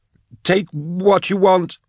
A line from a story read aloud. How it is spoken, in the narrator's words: he cried